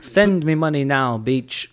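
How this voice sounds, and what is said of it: Put-on Middle Eastern accent. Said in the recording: “I'm reading in a Middle Eastern accent”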